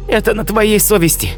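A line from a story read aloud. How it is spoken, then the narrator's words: Exclamation. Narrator (Russian): она воскликнула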